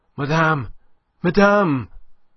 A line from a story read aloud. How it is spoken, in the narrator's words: he panted out of breath